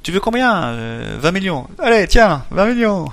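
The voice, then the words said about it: Poorly done put-on Italian accent. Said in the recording (French): “je le fais mal, l'accent italien”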